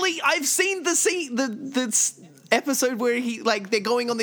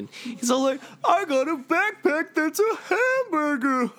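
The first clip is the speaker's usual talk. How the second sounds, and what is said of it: Imitates a cartoon character's voice. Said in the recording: “that was actually a pretty good Steven Universe impression.”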